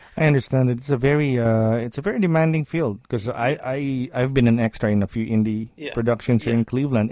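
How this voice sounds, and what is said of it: Good radio voice. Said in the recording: “You do have a good radio voice”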